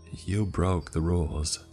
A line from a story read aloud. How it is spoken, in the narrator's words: In a calm, soft tone, she said